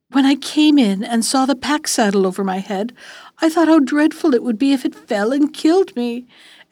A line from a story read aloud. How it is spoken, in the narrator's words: the girl answered between her sobs